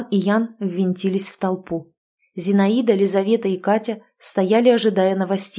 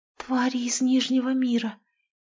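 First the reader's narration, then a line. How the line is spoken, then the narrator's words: Whispered. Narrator (Russian): прошептала Лизавета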